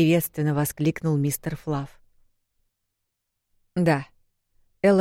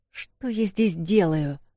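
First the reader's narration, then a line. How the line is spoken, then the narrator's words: Question through gritted teeth. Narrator (Russian): сквозь зубы спросила Эл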